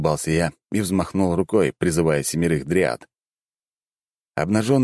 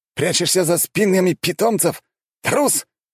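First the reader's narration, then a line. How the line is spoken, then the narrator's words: Shouted out. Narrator (Russian): выкрикнул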